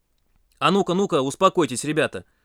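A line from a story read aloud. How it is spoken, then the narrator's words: Stern shout. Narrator (Russian): строго прикрикнул инструктор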